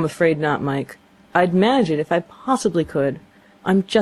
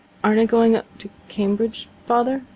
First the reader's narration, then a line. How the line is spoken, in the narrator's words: stammered Mike